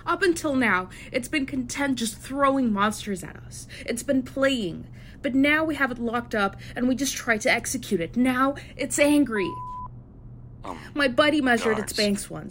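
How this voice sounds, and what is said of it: Loud, agitated shouting. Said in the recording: “Please lower your voice. ... Please, I ask you to lower your voice.”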